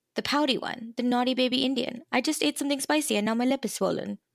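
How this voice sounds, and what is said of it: Put-on Indian accent. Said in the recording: “it's said with an Indian accent, kind of like what I did, but not exactly”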